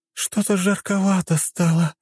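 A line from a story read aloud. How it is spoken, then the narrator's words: Moaning. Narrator (Russian): простонала она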